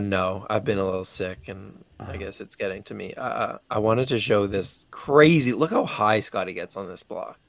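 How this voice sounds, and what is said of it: Deteriorating, strained sick voice. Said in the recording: “My voice is deteriorating at a rapid. ... I hear that.”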